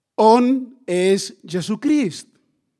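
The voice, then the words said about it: Slow, slightly louder question. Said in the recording (Catalan): “pronunciant les paraules a poc a poc, però augmentant lleugerament la seva veu”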